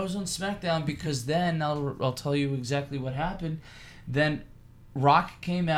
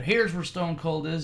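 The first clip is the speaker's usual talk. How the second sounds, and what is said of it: Put-on Southern accent. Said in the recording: “Why does The Rock have a Southern accent?”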